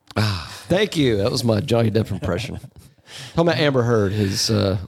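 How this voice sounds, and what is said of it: Usual voice. Nothing is said of it.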